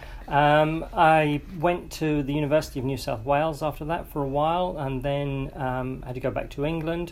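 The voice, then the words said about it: Foreign accent. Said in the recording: “I still haven't lost the accent, I'm afraid, as people keep pointing out.”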